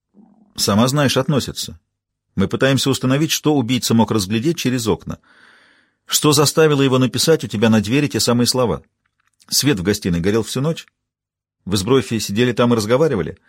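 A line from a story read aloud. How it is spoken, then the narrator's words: Heavy sigh. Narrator (Russian): Маура тяжело вздохнула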